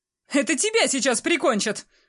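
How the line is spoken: Shouting. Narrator (Russian): крикнула Кристина

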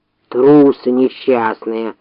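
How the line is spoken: Bear's growl. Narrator (Russian): прорычал медведь

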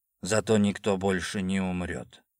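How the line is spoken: Quiet reply. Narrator (Russian): Он тихо ответил

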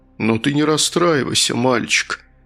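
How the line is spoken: Giggling. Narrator (Russian): Наджиб хихикнул

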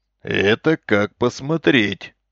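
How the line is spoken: Snorting. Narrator (Russian): хмыкнул Исаев

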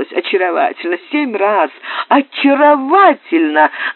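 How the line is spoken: Laughing young man. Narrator (Russian): добавил молодой виконт, смеявшийся громче и дольше всех

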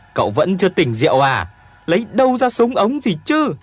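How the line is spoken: Shouting back. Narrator (Vietnamese): Tuyền Béo hét trả

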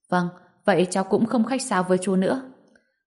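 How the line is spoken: Smiling. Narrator (Vietnamese): mỉm cười nói

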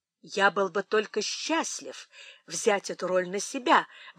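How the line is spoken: Exclamation. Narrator (Russian): воскликнул Том

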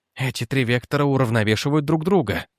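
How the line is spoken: Whisper trembling with excitement. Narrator (Russian): прошептал он, и впервые за долгое время его голос дрогнул не от страха, а от азарта

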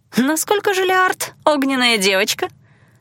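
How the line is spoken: Amused snort. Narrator (Russian): Айландир хмыкнул

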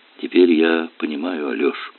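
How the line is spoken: Quiet, strained, cracked voice. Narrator (Russian): тихо проговорила она незнакомым, сорванным голосом

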